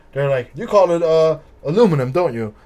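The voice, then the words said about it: Bad British accent, sounds Russian. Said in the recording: “That was a horrible British accent, by the way. ... also, that sounds kind of Russian.”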